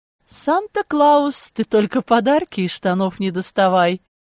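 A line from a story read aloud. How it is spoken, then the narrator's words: Drunken giggle. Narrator (Russian): Пьяно хихикнула она по-русски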